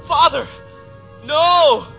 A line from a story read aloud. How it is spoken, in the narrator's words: The feeble young man shouted